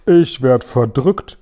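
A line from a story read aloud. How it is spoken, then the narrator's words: Exclaimed. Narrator (German): rief er aus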